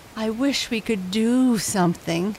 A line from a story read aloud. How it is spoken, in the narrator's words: moaned Gatika